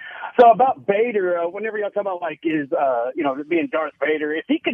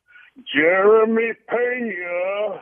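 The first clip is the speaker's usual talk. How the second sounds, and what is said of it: John Kerry impression. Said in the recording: “put on my John Kerry voice”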